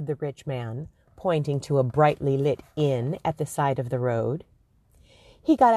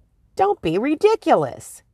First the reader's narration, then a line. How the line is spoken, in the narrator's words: cried